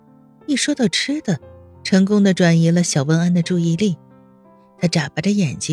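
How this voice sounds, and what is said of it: Usual voice. Nothing is said of it.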